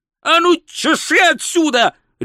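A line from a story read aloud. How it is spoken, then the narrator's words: Wizard's bark. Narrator (Russian): рявкнул волшебник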